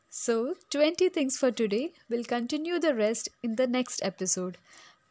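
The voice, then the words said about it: Unclear voice, sounds unwell. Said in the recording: “my voice isn't so clear today because I am not keeping well from a few days now”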